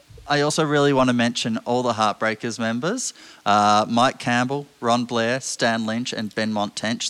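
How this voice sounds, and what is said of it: Speaks with a noticeable accent. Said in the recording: “I'm not sure if my accent kind of screws up those names a bit”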